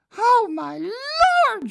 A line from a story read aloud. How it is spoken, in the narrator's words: started screaming